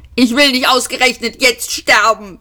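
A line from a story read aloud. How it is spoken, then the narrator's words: Shouting. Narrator (German): schrie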